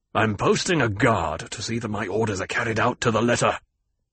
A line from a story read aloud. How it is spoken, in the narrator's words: His face clouded, and he growled